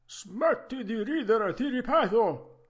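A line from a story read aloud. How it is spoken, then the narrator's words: Menacing yell. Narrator (Italian): urlò con voce minacciosa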